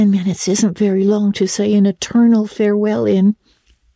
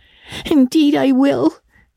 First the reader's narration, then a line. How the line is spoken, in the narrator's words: sobbed Diana